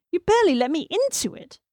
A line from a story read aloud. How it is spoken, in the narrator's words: she exclaimed